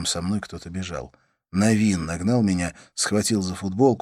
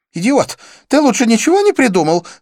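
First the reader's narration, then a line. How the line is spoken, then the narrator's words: Young woman exclaiming. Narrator (Russian): воскликнула девушка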